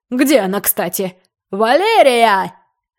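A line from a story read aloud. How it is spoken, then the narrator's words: Screamed at full volume. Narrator (Russian): Завопил он, что есть мочи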